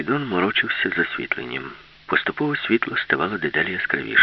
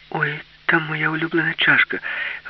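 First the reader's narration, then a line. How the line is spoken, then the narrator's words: Exclamation. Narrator (Ukrainian): вигукнула Аліса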